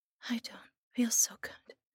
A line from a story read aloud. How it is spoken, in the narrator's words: she whispered